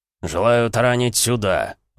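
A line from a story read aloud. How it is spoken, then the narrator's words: Pompous booming drone. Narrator (Russian): важно прогудел Эмик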